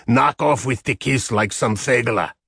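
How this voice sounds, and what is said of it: Raspy thick Middle European accent. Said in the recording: “she rasped, with her thick Middle European accent.”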